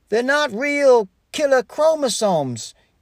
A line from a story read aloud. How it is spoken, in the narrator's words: yelled someone